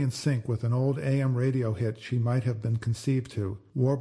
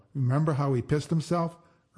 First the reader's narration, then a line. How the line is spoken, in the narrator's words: Earl howled